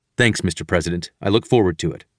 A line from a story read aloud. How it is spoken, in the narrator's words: I replied